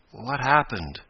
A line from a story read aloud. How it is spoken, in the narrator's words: he asked faintly